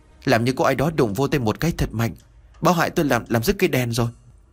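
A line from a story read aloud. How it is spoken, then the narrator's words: Trembling voice. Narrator (Vietnamese): Ba Dư trả lời với một giọng run rẩy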